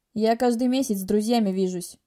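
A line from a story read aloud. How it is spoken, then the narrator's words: Grumbling. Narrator (Russian): ворчал он, когда я отнекивалась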